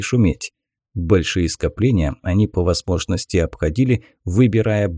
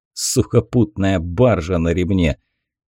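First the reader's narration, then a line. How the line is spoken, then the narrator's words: Chuckling. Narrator (Russian): Разведчик еще хохотнул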